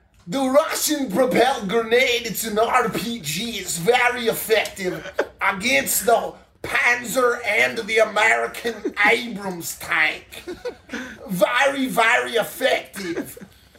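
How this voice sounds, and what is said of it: Put-on Russian accent. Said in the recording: “he's just doing this Russian accent talking about Panzer tanks”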